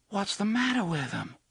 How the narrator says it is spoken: Susanna asked, in a soft, horrified voice

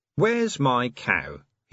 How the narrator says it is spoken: he announced

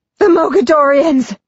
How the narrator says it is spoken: He shouts

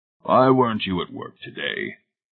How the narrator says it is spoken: the heavy-set man grunted

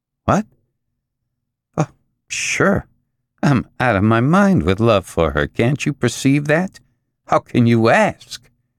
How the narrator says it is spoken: His tone was violently bitter

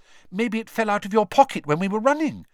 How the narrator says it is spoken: Hermione suggested anxiously

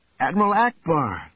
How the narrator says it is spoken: Luke cried out

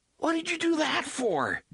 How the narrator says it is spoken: Jake cried, hurt and outraged

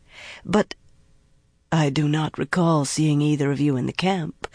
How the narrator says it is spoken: the woman said in a throaty, almost sultry voice

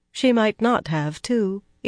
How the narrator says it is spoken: Elaine replied calmly, more calmly than she felt

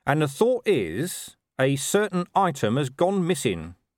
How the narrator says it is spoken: he said slowly

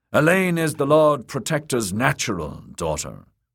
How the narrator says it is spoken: told gruffly

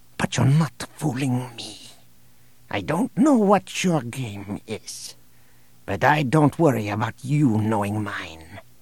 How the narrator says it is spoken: whispered

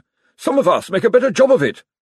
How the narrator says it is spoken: snapped Josephine

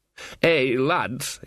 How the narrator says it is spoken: he slurred

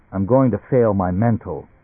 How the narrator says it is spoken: Barney said

